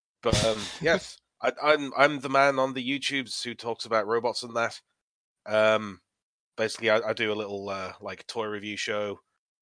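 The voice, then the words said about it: Congested voice from a cold. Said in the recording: “I've got a bit of a cold.”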